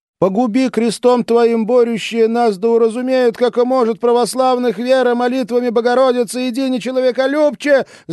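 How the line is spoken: Shouted prayer. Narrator (Russian): закричала Маша слова молитвы

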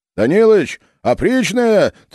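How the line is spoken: Anxious distant shout. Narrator (Russian): тревожно закричали с конца обоза

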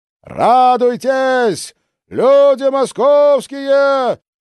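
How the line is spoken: Drawn-out singsong shout. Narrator (Russian): протяжно кричал, словно пел

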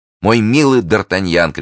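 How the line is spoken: Shouting. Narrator (Russian): кричал между тем Арамис

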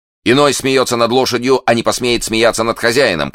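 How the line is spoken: Enraged shout. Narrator (Russian): крикнул взбешенный подражатель Тревиля

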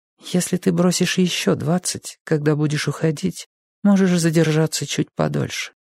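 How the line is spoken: Quiet. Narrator (Russian): тихо сказала она

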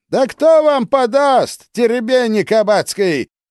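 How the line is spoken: Brazen shout from afar. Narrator (Russian): Издалека нагло закричал

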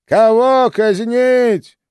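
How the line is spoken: Bitter exclamation. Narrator (Russian): горько воскликнул он

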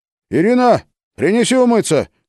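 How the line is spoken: Shouted. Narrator (Russian): крикнул

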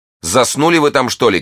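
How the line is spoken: Harsh shouting. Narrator (Russian): кричала миледи резким голосом

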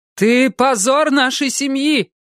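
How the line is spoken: Shouted. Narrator (Russian): крикнула она ему

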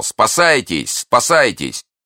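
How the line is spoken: Crowd shouting. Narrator (Russian): Весь лагерь кричал

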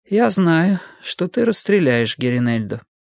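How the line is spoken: Calm. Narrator (Russian): сказала спокойно

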